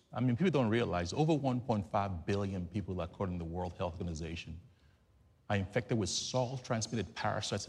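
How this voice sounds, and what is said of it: Nigerian English accent. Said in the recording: “You can tell from my accent, I'm not from Nashville, Tennessee. ... I'm from Lagos, Nigeria.”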